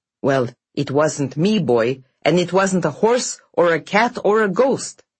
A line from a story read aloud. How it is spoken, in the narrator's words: snarled Pyotr to the stable boy